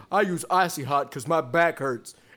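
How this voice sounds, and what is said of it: Imitates another person's voice. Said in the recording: “my impression of Shaquille O'Neal”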